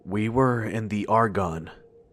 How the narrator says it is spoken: said in almost a whisper, as though speaking too loud would bring it all back

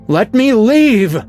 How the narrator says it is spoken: bellowed

